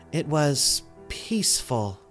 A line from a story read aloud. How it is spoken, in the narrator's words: she sighed with contentment